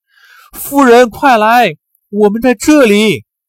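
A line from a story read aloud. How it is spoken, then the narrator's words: Calling out. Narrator (Chinese): 有人呼喊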